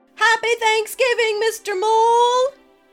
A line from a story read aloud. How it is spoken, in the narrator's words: they all shouted